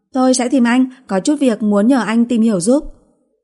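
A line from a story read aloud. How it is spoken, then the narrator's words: Raised voice. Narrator (Vietnamese): Nana cao giọng nói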